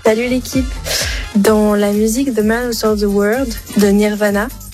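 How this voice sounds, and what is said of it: Showy, good English accent. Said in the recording (French): “comment elle se la pète avec son accent. Très bon accent.”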